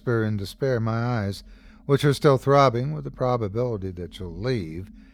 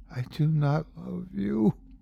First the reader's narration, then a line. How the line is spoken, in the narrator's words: whispers back